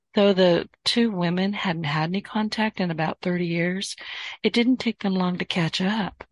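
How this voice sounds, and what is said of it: Hoarse, fading voice. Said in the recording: “I'm losing my voice. ... My voice kind of goes with the winds”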